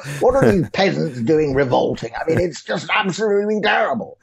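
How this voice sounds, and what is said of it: Posh upper-class English accent. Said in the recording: “these effete upper class twits like Cameron, you know, Eton educated. You know, I can do that accent if I want.”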